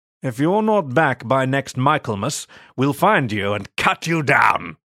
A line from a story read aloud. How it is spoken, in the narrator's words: William barked